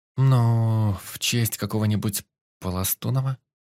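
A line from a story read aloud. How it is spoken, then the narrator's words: Uncertain suggestion. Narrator (Russian): Неуверенно предположила экс-модель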